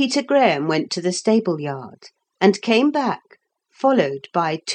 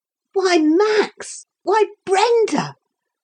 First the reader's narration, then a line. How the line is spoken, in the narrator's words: cried Philip